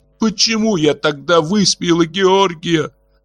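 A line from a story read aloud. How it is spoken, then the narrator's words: Sobbing. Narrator (Russian): рыдала Нестан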